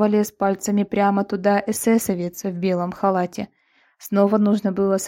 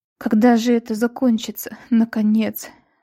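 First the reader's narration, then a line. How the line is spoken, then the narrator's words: Frightened sobbing. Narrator (Russian): всхлипывала утром Лира, уже боявшаяся закрывать глаза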